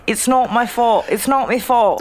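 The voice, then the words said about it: Put-on British accent. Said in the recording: “My British accent”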